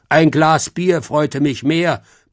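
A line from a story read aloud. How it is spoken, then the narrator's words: Gruff bear grumble. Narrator (German): brummte der Bär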